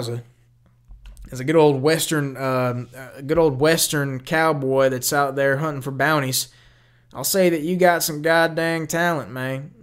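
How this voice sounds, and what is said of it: Put-on Southern accent. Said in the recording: “I'm going to stop doing the Southern accent”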